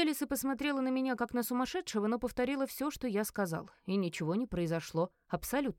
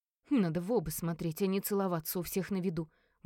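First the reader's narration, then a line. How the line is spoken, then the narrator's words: Grumbling. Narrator (Russian): Буркнула Кара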